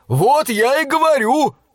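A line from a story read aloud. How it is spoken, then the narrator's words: Joyful yelling. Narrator (Russian): радостно заорал Мортон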